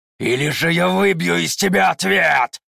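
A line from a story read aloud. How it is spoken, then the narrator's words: Growling. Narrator (Russian): прорычал он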